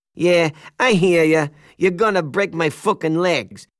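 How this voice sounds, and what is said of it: Put-on New York Italian mobster accent. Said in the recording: “in my best New York Italian mobster accent”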